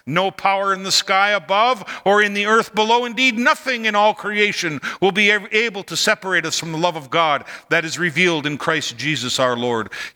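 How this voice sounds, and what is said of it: Shouting excitedly. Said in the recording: “why do you keep shouting? Because I'm excited.”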